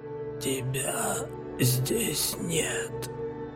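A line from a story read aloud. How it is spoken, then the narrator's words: Hoarse wheeze. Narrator (Russian): просипел Мартин Ковзинский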